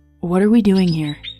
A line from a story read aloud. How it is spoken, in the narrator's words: he asked Zayrid